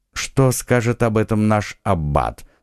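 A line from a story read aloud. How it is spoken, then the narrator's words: Calm inquiry. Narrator (Russian): спокойно осведомился Атос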